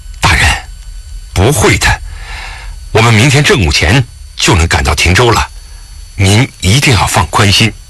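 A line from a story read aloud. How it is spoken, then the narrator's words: Impulsive, moved. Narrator (Chinese): 沈怀只觉得眼中一阵温热，冲动地道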